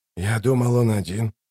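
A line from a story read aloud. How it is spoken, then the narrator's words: Puzzled mutter. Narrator (Russian): недоумевая пробормотал Ток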